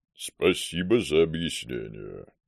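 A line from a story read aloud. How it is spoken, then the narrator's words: Booming drone. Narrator (Russian): прогудел Макар Тимурович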